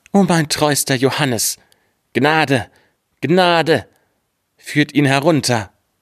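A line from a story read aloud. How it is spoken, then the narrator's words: King calling out. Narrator (German): rief der König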